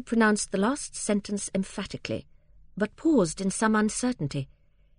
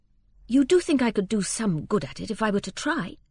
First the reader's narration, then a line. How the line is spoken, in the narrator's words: said Fred more eagerly